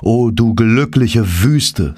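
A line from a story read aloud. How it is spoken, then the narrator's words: Plain. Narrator (German): sagte ich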